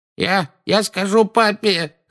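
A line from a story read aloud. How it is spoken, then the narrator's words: Whining. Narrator (Russian): хныкал Дадли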